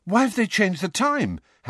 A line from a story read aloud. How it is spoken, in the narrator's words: Harry said breathlessly